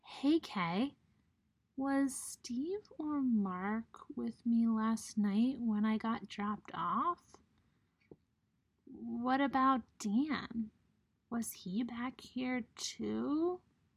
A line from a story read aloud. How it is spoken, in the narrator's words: Groggily, he mutters